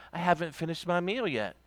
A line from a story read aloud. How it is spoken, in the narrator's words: very calmly said